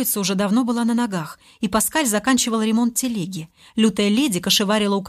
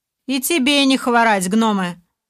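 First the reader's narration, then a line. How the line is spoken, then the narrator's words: Displeased, chilled voice. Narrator (Russian): недовольным голосом произнес сильно озябший Олег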